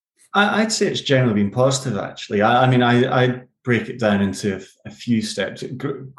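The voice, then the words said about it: Scottish accent. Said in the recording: “my accents, the Scottish accent”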